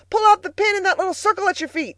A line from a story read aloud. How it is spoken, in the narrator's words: Freckles, standing on the pedals, shouted